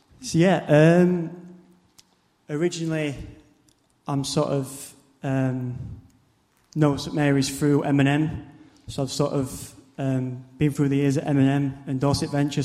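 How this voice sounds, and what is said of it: South Yorkshire northern English accent. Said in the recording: “my hometown in Barnsley... it's South Yorkshire, up north, so hence the accent”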